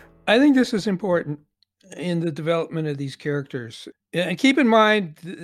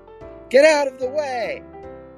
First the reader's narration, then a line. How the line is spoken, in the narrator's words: scream at him